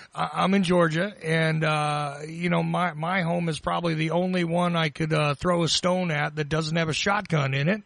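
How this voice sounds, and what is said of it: Southern US Georgia accent. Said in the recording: “I'm in Georgia. Okay. And I know you can tell from my accent”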